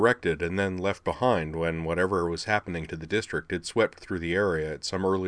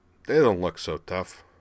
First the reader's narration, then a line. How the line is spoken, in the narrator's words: Rumble peered over the top and muttered